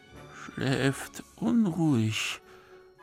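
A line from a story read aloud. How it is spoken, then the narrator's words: Soldier muttering. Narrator (German): murmelte einer der Soldaten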